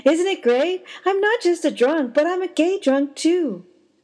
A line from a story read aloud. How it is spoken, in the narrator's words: She laughed and said